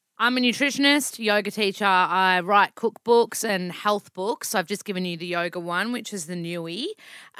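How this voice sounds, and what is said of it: Broad Australian accent. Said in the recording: “I'm a self-proclaimed Aussie bogan, hence my accent.”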